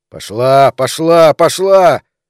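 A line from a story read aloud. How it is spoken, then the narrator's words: Yelling into phone. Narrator (Russian): заорал Бен в трубку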